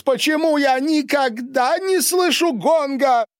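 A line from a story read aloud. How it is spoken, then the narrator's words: Loud yell across room. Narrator (Russian): завопил он на всю столовую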